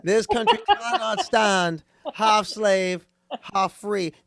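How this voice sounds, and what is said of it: Boston accent, JFK impression. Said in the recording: “better when you said it with a Boston accent”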